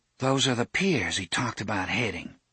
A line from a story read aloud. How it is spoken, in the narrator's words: Susanna murmured